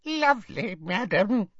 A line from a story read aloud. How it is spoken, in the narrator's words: squeaked Hokey